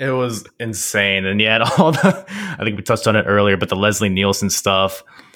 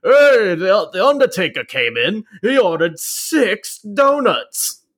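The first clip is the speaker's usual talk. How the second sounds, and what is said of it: Imitates another person's voice. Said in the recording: “that's actually really good impression ... that's exactly what that guy sounded like”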